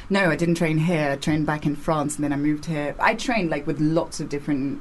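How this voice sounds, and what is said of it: Near-RP British English accent. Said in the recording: “you're not completely, but you're borderline RP, like received pronunciation”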